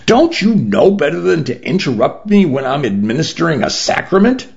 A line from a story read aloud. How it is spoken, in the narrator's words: I snapped